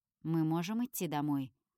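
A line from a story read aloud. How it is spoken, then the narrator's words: Dry question. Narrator (Russian): сухо спрашивает Люцифер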